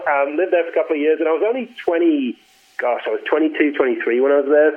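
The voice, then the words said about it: Northern English accent, Australian-tinged. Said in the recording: “born and raised in the north of England, and my accent's a little screwy ... I thought you were Australian ... a big impact on my voice, and then on my accent”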